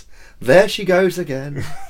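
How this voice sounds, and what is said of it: Sung line in imitated character voice. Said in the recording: “singing There She Goes by the Lars in my head in an Alan Partridge voice.”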